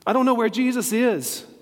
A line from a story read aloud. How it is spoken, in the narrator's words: Mary said urgently